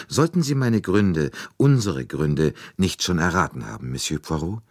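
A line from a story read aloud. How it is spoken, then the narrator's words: Calm addition. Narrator (German): Und Helena setzte ruhig hinzu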